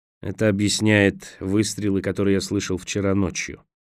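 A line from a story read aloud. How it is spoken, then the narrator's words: Gloomy remark. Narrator (Russian): мрачно заметил Николас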